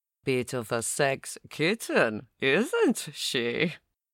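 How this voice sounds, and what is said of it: Extravagant English accent. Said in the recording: “his extravagant English accent”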